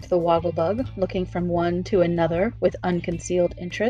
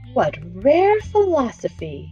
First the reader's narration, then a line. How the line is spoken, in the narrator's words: exclaimed the Wogglebug admiringly